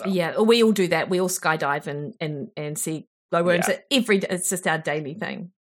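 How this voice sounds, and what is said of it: New Zealand accent. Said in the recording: “your lovely New Zealand accent”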